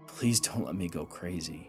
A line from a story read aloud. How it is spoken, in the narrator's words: he whispered